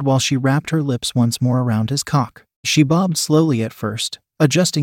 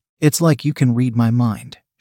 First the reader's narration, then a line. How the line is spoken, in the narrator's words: she replied